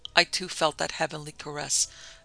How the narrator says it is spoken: exclaimed the old priest

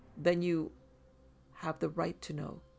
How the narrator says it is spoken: she calmly interrupted

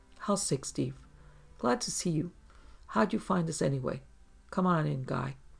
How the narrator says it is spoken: Millar said in his low husky voice

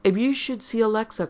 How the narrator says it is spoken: cried Miriam after me

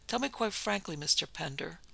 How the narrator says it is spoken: he said soothingly, with deep attention in his manner

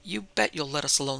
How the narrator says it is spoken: said Kate fiercely

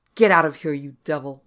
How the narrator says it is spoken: I roared at it

